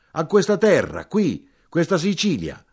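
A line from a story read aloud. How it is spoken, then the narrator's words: Louder shout. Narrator (Italian): Più forte gridai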